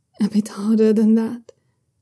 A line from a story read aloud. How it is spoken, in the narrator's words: Young Susian whispers against his ear